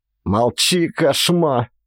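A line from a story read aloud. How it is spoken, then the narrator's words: Predator's snarl. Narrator (Russian): огрызнулся хищник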